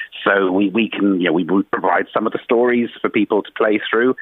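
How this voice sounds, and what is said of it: South Wales accent. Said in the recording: “we discern from your accent you're from across the water ... I'm a South ... Wales”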